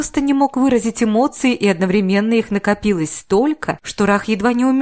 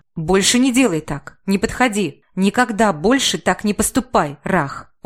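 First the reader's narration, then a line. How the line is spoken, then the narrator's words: Hoarse, through gritted teeth. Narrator (Russian): хрипло процедил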